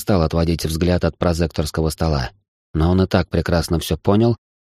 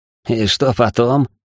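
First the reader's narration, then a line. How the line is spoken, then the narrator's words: Ringing laughter. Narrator (Russian): заливисто рассмеялся Миша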